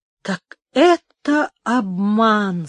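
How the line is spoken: Dull, hollow voice. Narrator (Russian): сказал он глухим голосом

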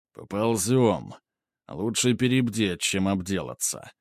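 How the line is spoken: Grumbled. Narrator (Russian): проворчал Ганс

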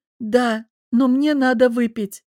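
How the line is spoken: Tearful sob. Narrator (Russian): всхлипнула я

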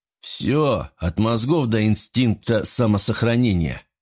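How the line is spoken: Through clenched teeth. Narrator (Russian): процедил Юсупов

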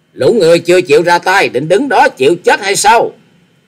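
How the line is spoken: Leader's shout. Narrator (Vietnamese): Tiếng quát của giáo chủ của chúng

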